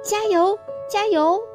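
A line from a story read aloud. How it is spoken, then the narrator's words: Many tiny voices in unison. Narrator (Chinese): 好像有无数的小东西在齐声高喊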